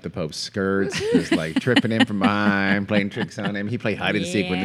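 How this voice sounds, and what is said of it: Usual voice. Nothing is said of it.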